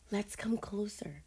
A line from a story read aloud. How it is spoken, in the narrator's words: Sydney whispered